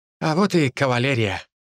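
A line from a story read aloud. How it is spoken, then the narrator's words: Wry snort. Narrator (Russian): хмыкнул вернувшийся Ли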